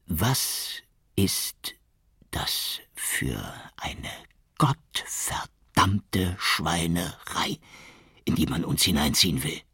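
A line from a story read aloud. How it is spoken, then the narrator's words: Hissing. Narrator (German): zischte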